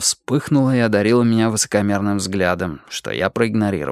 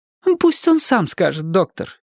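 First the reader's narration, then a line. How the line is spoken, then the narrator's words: Snide teasing. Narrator (Russian): ехидно поддела меня мисс Беррисфорд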